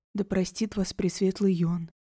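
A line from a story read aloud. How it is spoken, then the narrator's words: Whispered. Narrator (Russian): прошептала Урсула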